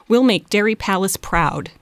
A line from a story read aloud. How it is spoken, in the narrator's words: Debbie said